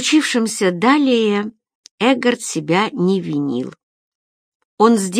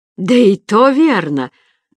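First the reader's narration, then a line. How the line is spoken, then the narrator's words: Loud laughter. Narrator (Russian): расхохотался курьер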